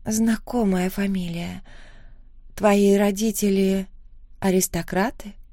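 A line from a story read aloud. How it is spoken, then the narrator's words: Uncertain, hesitant. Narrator (Russian): спросила она неуверенно, явно не зная, стоит ли продолжать предъявлять свои претензии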